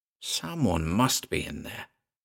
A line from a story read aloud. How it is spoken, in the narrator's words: said Green under his breath